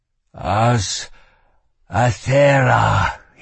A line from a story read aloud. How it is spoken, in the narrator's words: he moaned